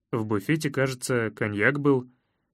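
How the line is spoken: Uncertain tone. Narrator (Russian): неуверенно сообщил я

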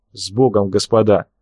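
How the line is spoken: Quiet. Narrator (Russian): тихо произнес Лебедев

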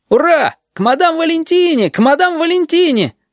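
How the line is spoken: Boys shouting. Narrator (Russian): закричали мальчишки

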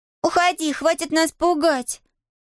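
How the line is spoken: Girl shouting. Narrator (Russian): закричала одна из девочек

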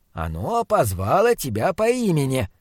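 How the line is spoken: Encouraging mutter. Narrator (Russian): поощряюще пробормотал фон Хельрунг

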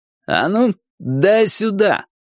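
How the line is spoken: Commanding demand, small man. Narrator (Russian): командирским голосом, не вяжущимся с его малым ростом, потребовал Джонни О

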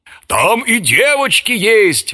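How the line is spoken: Yelling. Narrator (Russian): вопил Швейк

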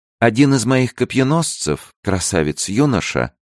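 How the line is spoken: Calm, queen. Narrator (Russian): спокойно продолжала королева

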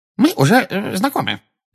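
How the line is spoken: Excited squeak. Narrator (Russian): пропищал чуть что приходящий в волнение Дингл

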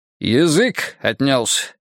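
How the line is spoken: Stern question. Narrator (Russian): строго осведомился прапорщик

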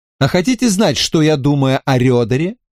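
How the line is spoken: Plain. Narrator (Russian): спросил я

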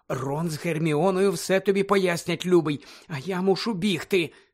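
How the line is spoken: Anxious whisper. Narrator (Ukrainian): стривожено зашепотіла місіс Візлі

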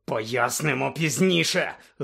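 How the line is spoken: Barked. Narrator (Ukrainian): гаркнув Блек

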